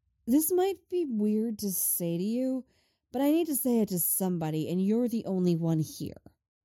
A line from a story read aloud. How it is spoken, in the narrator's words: she says